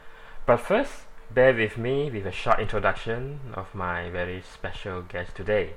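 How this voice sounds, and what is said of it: Malaysian-accented English. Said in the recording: “please pardon my Malaysian accent and pronunciation, as English is really not my mother tongue”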